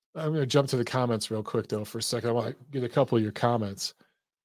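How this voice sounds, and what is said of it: Strained, fading voice. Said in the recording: “I'm losing my voice.”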